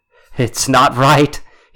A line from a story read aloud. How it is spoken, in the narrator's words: he shouted